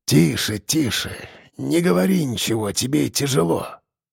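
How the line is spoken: Soft, strained voice. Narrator (Russian): сказал дед мягко, сдавленно

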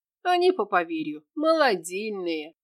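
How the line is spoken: Battle sorcerer giggling. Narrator (Russian): хихикнул боевой чаровник

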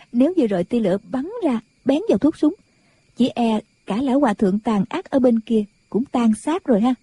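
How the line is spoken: Giggling. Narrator (Vietnamese): Nàng cười khúc khích, nói

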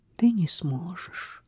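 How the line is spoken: Sad reply. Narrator (Russian): грустно ответила Изабель

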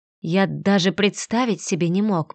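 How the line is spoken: Whispered. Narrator (Russian): прошептал он

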